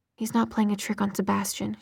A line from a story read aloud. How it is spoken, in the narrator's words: she replied softly